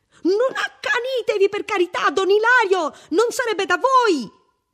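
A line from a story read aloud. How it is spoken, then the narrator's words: Huge figure shrieking. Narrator (Italian): una enorme figura scura strillava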